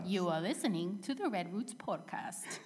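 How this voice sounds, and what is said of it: Poor attempt at English accent. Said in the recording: “Your English accent is awful. ... What kind of accent is that? ... It was an English accent. ... An accent in English. But I don't know what accent it was.”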